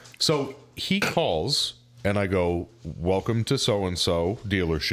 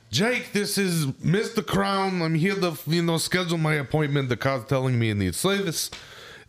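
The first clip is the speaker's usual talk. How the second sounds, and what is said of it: Put-on stereotypical East Coast accent. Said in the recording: “stereotypical East Coast Jew has the accent, the whole nine yards”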